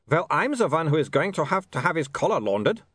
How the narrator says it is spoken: snapped Otto

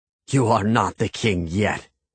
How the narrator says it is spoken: he growled

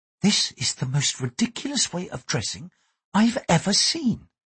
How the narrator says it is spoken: To the samurai, she said quietly

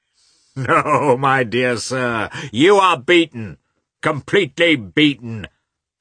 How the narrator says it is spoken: shouted Katavasov merrily

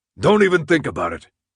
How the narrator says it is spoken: he barked

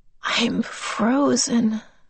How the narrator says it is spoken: she said faintly

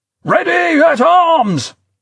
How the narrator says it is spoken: General Byrd yelled

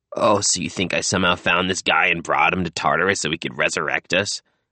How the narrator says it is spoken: Carl laughed weakly

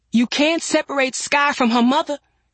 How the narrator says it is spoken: Nina cried

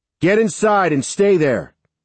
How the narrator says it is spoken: I shouted

